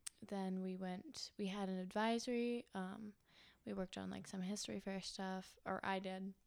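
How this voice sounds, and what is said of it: Usual voice. Nothing is said of it.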